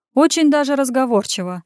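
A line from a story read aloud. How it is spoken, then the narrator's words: Chuckling, insinuating. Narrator (Russian): хохотнул я, вкрадчиво намекнув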